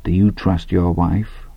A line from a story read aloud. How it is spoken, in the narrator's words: he said very softly to Hadley